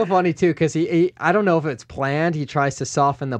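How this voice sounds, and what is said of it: Usual voice. Nothing is said of it.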